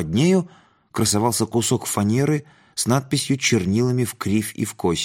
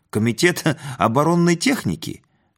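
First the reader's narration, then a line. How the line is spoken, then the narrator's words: Giggling. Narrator (Russian): Бородатый хихикнул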